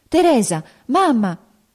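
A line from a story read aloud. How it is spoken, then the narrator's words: Agitated voice from behind. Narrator (Italian): una voce alterata esclamò dietro la carrozza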